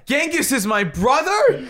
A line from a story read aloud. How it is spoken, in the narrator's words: Bill exclaimed